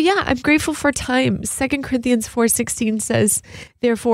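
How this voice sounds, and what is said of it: Usual voice. Nothing is said of it.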